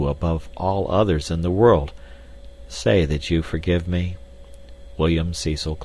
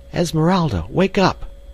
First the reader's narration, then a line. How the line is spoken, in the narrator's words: she cried